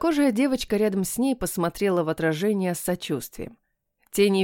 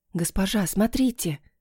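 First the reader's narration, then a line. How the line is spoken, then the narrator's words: Whispered. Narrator (Russian): прошептала Намия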